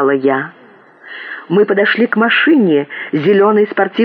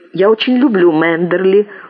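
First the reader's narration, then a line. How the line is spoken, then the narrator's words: Cold. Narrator (Russian): холодно сказала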